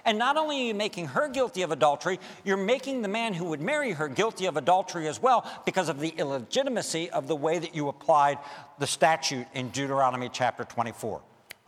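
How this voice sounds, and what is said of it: Very fast speech. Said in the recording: “I said that quickly, sorry.”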